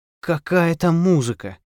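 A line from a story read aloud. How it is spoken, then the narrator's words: Sighing. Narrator (Russian): вздохнула Гаврилова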